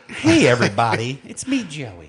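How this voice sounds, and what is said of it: Exaggerated stereotypically white-sounding voice. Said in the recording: “I'm going to do this in my whitest voice ever.”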